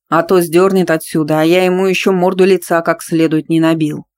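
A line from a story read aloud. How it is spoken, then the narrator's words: Angry agreement. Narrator (Russian): сердито поддержал Стас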